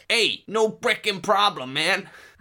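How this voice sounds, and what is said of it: Put-on New York accent. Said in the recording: “They're American. ... New York.”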